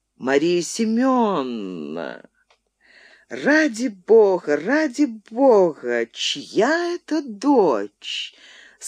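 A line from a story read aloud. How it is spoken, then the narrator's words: Unexpectedly with burr. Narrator (Russian): сказал неожиданно картаве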